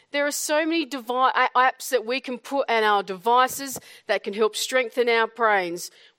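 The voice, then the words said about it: Australian accent. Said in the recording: “sound so good with an Australian accent”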